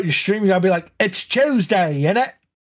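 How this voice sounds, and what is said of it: Fake British accent. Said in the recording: “you gotta put on a phonish British accent ... some buck-toothed British guy”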